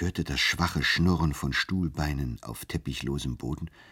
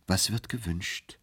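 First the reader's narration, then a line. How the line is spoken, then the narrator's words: Gentle question. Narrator (German): fragte er sanft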